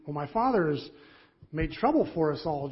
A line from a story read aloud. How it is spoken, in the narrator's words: Jonathan exclaimed